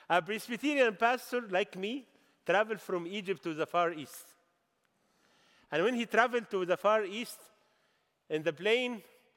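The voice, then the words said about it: Egyptian-accented English. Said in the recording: “forgive me for my language and my accent,”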